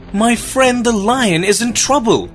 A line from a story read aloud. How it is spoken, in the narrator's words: cried the mouse